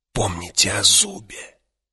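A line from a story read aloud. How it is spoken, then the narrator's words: Hissed. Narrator (Russian): прошипел Юэ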